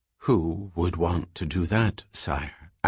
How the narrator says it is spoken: asked de Merzel softly

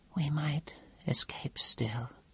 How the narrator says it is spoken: whispered the Cepheid

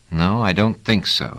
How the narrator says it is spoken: said Trevise

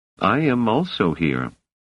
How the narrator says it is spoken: said Hummin calmly

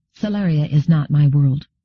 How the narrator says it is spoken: Gladia hesitated, then said firmly

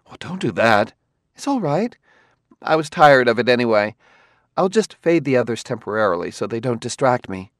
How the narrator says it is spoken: Bailey gasped and said

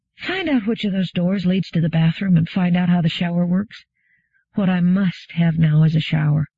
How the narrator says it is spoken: said wearily

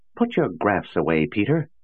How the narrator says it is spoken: cried

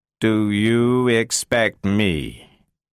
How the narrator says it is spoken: said Cutie slowly

